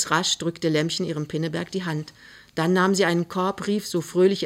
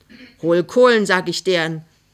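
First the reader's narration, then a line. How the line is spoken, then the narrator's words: Calling out. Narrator (German): rief die Frau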